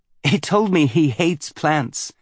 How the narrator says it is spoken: Alaru said with a giggle

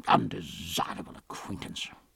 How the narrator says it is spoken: Stephen muttered within himself

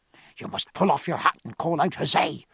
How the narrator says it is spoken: whispered Pullings into Stephen's ear

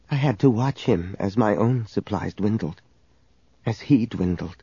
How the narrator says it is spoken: She whispered to Leia

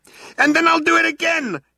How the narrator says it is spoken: yelled Arthur

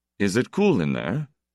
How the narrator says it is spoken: Joseph asked wistfully

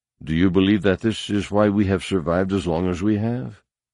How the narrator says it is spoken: Luke interrupted calmly

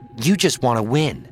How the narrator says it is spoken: said Myrta

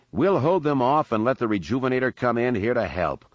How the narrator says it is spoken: Lando went on, his tone showing more confidence

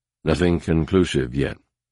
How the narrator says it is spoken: he returned equally as quietly

